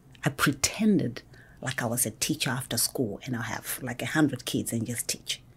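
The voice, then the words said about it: Zimbabwean accent. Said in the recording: “my accent is different. I speak differently. I don't speak like a Georgian. I was actually born and raised in Zimbabwe.”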